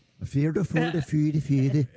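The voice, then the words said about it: Put-on Swedish-sounding accent. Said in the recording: “you can do a Swiss accent... That's Swedish.”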